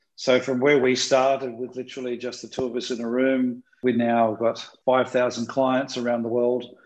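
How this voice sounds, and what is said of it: Australian accent. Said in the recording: “We started in Sydney. That's why I have this accent.”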